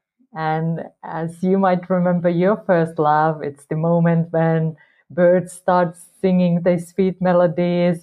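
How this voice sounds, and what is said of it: Finnish accent. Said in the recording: “I was living in a small village in Finland, so that's where this accent comes from.”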